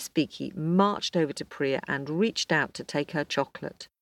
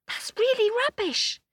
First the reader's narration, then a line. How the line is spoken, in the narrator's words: exclaimed Priya